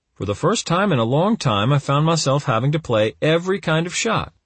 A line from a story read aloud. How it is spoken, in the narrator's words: he said happily